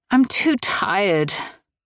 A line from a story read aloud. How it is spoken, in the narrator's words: Annabelle moaned